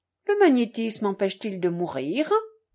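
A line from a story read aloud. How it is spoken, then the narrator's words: Pleasant, without bitterness. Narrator (French): demanda Minoret d'un ton plaisant mais sans aigreur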